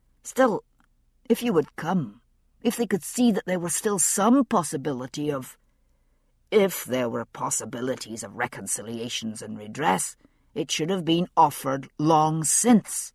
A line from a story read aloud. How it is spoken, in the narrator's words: Husband said sharply